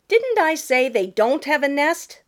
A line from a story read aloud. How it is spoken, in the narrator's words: sputtered Jenny